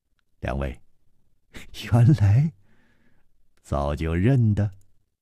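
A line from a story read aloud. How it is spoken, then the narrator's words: Smiling. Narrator (Chinese): 楚留香……笑道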